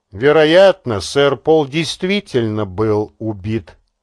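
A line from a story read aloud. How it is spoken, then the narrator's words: Calm confirmation. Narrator (Russian): спокойно подтвердил Делглиш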